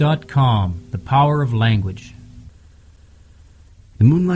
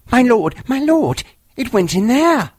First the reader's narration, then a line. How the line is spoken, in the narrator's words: Tabaki behind him was squeaking